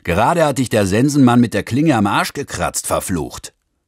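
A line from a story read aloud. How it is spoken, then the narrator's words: Roaring. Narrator (German): Der Fahrer brüllte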